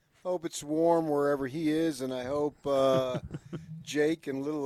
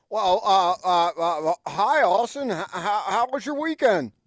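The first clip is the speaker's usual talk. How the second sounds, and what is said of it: Imitates another person's voice. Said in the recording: “My Gordon impression... Gordon's impression, that's pretty good”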